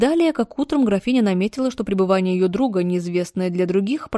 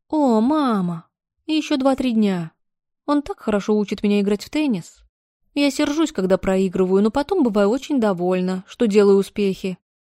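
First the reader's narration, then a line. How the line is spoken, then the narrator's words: Ingratiating voice. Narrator (Russian): Анетта заговорила вкрадчивым голосом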